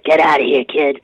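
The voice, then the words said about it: Imitates another person's voice. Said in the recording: “you even sound somewhat like him. That's a great imitation.”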